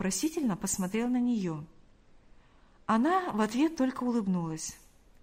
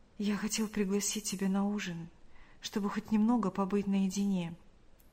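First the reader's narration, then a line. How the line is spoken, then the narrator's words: Whispered. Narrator (Russian): прошептал он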